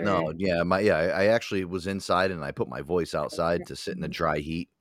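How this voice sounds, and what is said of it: Rough, damaged-sounding voice. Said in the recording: “My voice is so fucked up today. It's probably because I was sitting outside for so long... I'm fucking hawking up loogies”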